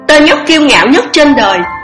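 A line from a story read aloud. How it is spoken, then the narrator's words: Interrupting shout. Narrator (Vietnamese): Nàng hét lên một tiếng cướp lời hắn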